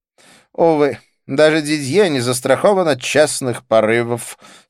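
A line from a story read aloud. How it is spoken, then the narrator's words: Rueful sigh. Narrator (Russian): сокрушенно вздохнул Дидье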